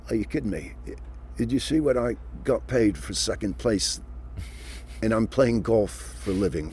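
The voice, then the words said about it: Poorly done Australian accent. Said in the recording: “that's a horrible Australian accent”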